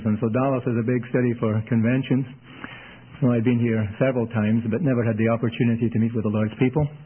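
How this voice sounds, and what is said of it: Scottish accent. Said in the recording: “If my accent puzzles you or bothers you ... Scotland's way far north of Toronto. And that's where I'm from, and that explains my accent.”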